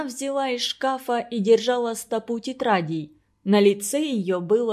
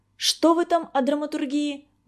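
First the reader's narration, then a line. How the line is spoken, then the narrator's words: Exclaimed. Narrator (Russian): воскликнула Ольга Денисовна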